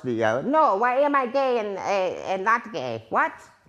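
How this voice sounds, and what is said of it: Comic character voice, Mango. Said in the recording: “That's my Mango impression ... That's like a Hobbit version of Mango.”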